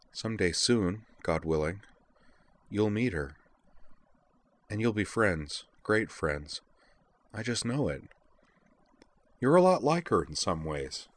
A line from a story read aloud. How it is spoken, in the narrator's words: Utina went on softly